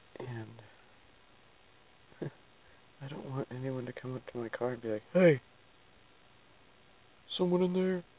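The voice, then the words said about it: Whispering. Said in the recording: “I'm whispering right now”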